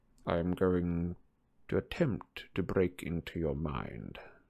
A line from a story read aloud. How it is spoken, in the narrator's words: said Snape softly